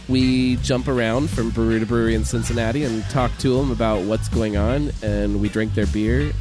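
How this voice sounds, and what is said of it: Rough, congested voice. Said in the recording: “I'm also getting over a cold, so if my voice sounds terrible”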